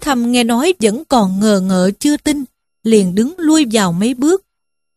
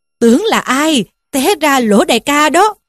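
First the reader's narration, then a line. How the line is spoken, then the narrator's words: Loud laughing speech. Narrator (Vietnamese): Người kia nghe nói liền cười to lên mà rằng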